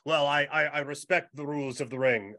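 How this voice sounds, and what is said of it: Imitates another person's accent. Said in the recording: “only in his accent ... I thought that accent was dead on. Perfect,”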